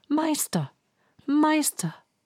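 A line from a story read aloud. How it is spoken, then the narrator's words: Harp calling again. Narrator (German): rief die Harfe wieder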